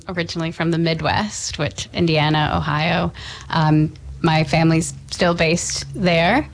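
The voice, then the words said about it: American accent. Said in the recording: “based on my accent, yeah, I am from America.”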